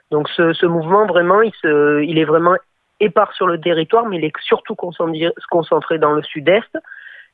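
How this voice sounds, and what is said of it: Sing-song Marseille French accent. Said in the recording (French): “vous avez un superbe accent chantant ... Marseille”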